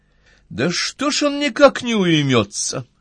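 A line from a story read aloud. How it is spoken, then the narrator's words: Loud, clear, annoyed. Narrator (Russian): с досадой сказала Настя громко и отчетливо, так что было слышно на весь ресторан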